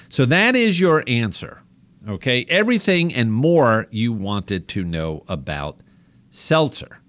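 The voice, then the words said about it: New York accent. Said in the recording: “my family makes fun of me with my New York accent”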